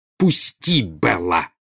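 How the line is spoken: Growled. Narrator (Russian): прорычала Нарцисса

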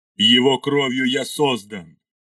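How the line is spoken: Shouting. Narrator (Russian): крикнул Ардамаил

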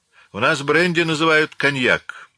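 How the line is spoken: Grumbled. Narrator (Russian): проворчал Наполеон

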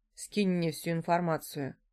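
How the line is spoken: Calm request. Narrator (Russian): попросил он спокойно

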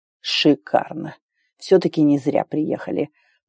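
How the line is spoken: Muttering to himself. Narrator (Russian): пробормотал Макс себе под нос

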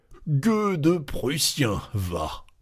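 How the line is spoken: Ringing voice. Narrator (French): il poussait d'une voix vibrante

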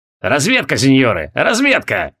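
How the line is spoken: Old man's amused snort. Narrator (Russian): хмыкнул однорукий старик

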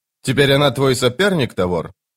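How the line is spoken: Sister snorting. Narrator (Russian): Сестра фыркнула

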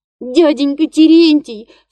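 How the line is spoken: Sobbing. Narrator (Russian): всхлипывает Фёкла

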